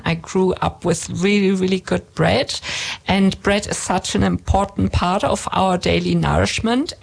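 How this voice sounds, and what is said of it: German accent. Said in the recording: “you can hear in my accent that I'm German”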